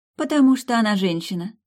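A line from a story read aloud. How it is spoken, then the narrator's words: Calm. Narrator (Russian): спокойно ответила де Авен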